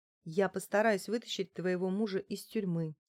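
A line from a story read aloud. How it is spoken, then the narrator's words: Calm explanation. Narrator (Russian): спокойно пояснила я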